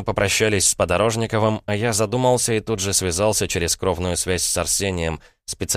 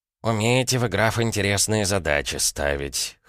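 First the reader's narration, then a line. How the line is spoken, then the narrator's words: Snorted. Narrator (Russian): хмыкнул тот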